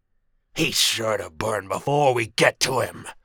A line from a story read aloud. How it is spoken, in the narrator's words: snarled Saber, a brown lycan